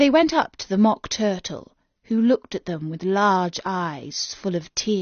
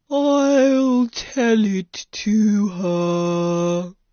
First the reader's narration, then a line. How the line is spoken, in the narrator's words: said the Mock Turtle in a deep, hollow tone